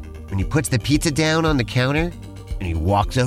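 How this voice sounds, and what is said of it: Usual voice. Nothing is said of it.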